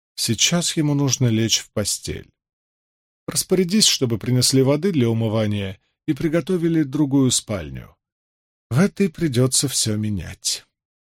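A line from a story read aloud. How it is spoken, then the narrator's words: Restrained anger, calm voice. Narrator (Russian): Темные глаза Морейн вспыхнули, однако, сдержавшись, она спокойно произнесла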